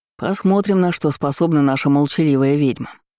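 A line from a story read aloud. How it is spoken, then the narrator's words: Snort. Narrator (Russian): хмыкнул Диен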